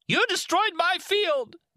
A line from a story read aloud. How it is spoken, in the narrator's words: the man shrieked at him